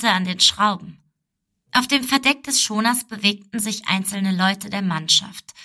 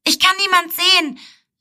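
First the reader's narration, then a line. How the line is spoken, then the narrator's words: Call. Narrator (German): rief es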